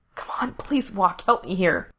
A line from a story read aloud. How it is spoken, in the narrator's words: Frank whispered frantically